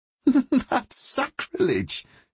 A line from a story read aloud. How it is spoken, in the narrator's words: said, laughing